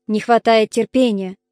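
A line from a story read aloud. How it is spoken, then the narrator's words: Grumbling. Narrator (Russian): проворчал Бинокль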